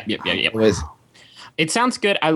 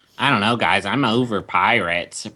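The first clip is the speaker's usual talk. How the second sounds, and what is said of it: Imitates another person's voice. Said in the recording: “That's what Justin sounded like. ... That was a Justin impersonation. ... Oh, that was good.”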